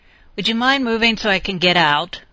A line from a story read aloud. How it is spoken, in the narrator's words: yelled at him somewhat irritably because, as usual, she had much to do before she could sleep that night